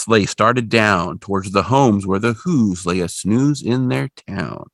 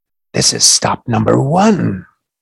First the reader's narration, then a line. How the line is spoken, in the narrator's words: the old Grinchy Claus hissed